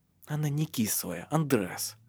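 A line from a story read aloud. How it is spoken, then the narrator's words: Gentle correction. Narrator (Russian): поправила его мягко Лив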